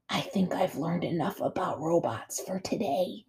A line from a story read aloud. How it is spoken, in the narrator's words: he whispered back